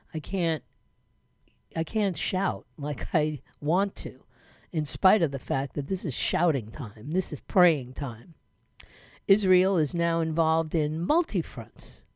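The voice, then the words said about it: Slow, low, quiet voice. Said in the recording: “my voice sounds a little slow or low or whatever ... it's just quiet”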